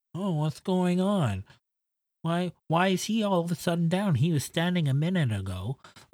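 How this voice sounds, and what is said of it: Imitates another person's voice. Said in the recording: “That was a perfect impression. ... That's exactly what he sounds like.”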